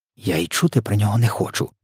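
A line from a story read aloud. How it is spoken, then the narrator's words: Whisper. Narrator (Ukrainian): прошепотіла Софія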